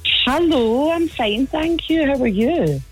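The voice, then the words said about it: Posh telephone voice. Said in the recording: “you suddenly changed your voice there to your proper telephone voice there ... I'm so posh”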